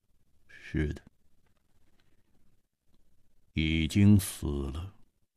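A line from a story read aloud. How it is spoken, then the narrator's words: Cold voice. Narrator (Chinese): 沙大户的声音显得冰冷，他说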